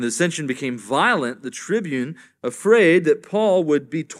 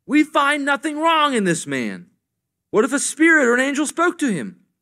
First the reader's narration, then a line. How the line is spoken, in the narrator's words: some of the scribes and the Pharisees' party stood up and contended sharply